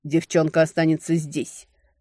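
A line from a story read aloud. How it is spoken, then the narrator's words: Impatient growl. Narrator (Russian): явно теряя терпение, рыкнул Крейн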